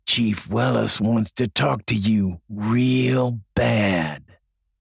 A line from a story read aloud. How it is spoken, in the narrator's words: He bent over close to Jeff's ear and whispered